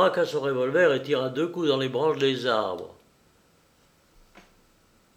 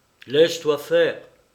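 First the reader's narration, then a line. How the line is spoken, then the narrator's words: Imperious chanting. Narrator (French): scanda Lupin d'un ton impérieux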